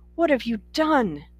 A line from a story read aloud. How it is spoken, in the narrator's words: her mother cried